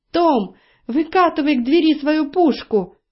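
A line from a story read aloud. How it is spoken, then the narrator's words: Frightened shout. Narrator (Russian): испуганно закричала Роза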